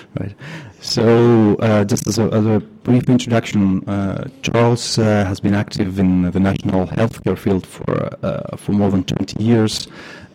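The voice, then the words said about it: Noticeable accent in English. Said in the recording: “My accent is bad enough already”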